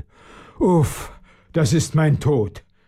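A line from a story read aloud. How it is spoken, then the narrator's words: Groaning lord. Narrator (German): stöhnte der Schlossherr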